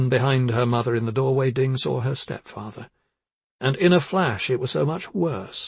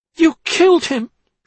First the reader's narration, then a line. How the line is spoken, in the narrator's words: she cried